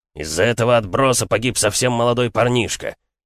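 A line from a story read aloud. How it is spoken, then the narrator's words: Loud bark for all. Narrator (Russian): рявкнул он так, чтобы все слышали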